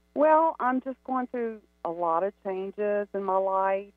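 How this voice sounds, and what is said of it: Louisiana regional accent. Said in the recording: “love your accent, by the way. It's so great.”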